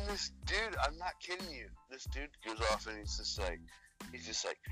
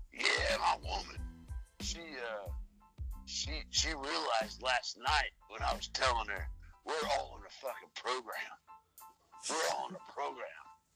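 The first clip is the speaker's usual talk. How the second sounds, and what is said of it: Imitates another person's voice. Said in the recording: “this is him. I'm I'm I'm, I'm impersonating him.”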